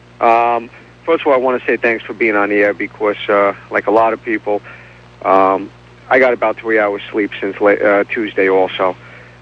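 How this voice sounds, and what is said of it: New York accent. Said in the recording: “I detect another New York accent.”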